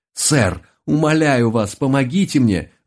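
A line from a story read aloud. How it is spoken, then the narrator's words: Desperate shout. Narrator (Russian): В отчаянии закричал я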